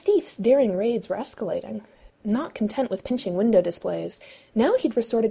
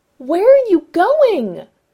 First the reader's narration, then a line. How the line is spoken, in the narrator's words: Ray yelled, his voice bouncing and echoing in the tunnel